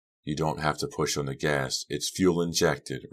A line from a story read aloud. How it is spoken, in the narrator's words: Red said softly